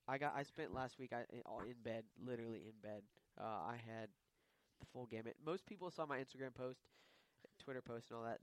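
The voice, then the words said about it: Sick, unwell-sounding voice. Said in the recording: “I'm stuttering. ... I've been sick the last week. ... I'm still sick. If you can't hear by my”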